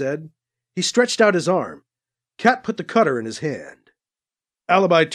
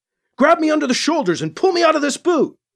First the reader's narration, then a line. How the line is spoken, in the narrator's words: he yelled to Cat